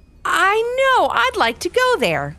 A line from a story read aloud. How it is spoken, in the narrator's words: laughed Casey